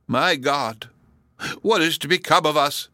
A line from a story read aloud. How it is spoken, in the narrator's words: gasped Hepzibah